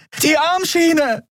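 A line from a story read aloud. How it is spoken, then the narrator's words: Throat-tearing scream. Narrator (German): schrie Endriel, dass es ihr fast die Stimmbänder zerriss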